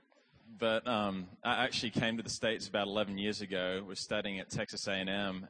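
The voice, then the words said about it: Australian accent with Alabama influence. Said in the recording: “you've probably never met an Australian from Alabama, right? Like, that's an interesting accent.”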